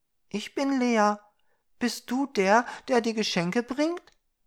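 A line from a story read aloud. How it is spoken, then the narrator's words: Girl asking somewhat fearfully. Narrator (German): fragte das Mädchen etwas ängstlich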